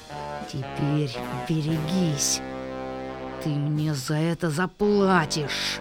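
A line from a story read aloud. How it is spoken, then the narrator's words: Hiss. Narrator (Russian): прошипела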